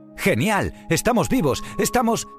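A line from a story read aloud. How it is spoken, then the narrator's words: Surprised woman exclaiming. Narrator (Spanish): exclamó Baiana mientras miraba sorprendida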